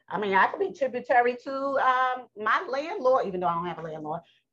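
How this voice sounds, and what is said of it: Slight New York accent. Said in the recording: “I know I have a little New York accent.”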